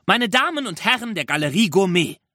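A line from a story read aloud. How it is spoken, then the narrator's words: Calling out. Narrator (German): rief er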